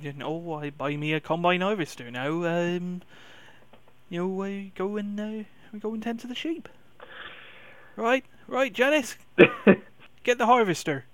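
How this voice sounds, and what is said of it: Put-on West Country accent, slipping. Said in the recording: “you want to go all West Country then? ... and then the accent falls apart”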